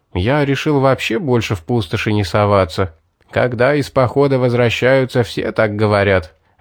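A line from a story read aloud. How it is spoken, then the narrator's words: Group laughing. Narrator (Russian): рассмеялись охотники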